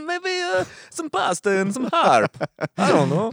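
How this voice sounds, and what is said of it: Put-on Russian-Italian accent. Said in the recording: “That's where that accent comes from. ... It's a Russian-Italian accent.”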